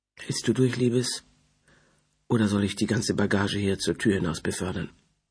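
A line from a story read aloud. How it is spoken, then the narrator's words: Soft quiet voice. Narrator (German): sagte sie leise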